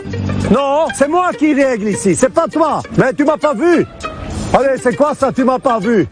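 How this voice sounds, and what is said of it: Authoritative voice with Flemish accent. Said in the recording (French): “avec son petit accent flamand, ça rajoute une petite autorité en plus”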